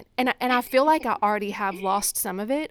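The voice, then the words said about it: Southern American accent. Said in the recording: “I'm loving your accent... if I start sounding like Southern”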